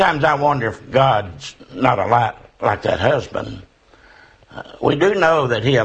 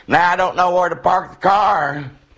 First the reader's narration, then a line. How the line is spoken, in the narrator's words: the wife cried